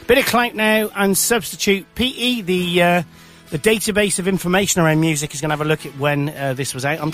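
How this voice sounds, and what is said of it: Hoarse, failing voice. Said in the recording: “my voice is going”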